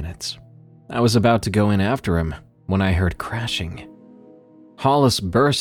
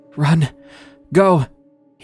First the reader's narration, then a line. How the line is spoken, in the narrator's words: he gasped